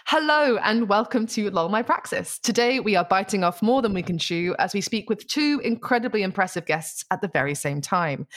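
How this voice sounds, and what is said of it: Professional radio presenter voice. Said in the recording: “This is my professional radio voice now.”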